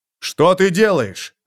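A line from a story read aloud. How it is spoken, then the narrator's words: Barking. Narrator (Russian): рявкнул Доминик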